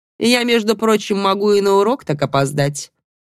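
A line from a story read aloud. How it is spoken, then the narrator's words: Too rude. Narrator (Russian): прозвучало чересчур грубо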